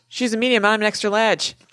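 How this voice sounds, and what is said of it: Put-on Boston accent. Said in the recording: “quite the Boston accent ... the guy does the accent”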